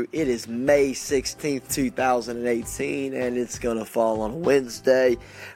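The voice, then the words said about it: Slightly congested, nasal voice. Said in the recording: “You can kind of hear it in my voice a little bit, but today I've got a little bit of drainage going on”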